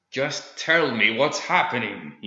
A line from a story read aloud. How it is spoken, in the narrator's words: he snapped